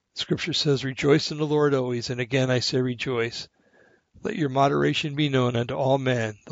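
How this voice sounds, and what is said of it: Crackling, strained voice. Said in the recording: “my voice is starting to crackle here”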